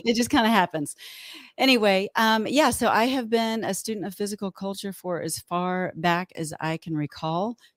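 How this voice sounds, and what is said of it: Texan accent with twang. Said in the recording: “I'm a Texas girl at heart ... you may hear a little more y'alls than normal, a little more twang.”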